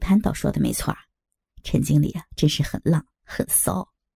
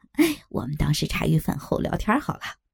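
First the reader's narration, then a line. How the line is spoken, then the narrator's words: Lewd laugh. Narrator (Chinese): 老张主人淫笑起来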